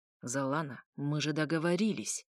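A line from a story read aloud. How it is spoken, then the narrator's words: Hissed. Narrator (Russian): прошипел ведьмак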